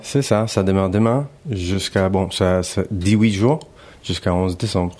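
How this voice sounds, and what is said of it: Light Spanish-English accented French. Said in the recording (French): “Vous avez un petit accent très agréable, très sympathique ... Mélange espagnol à anglais”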